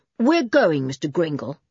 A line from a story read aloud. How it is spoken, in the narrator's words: said Julian coldly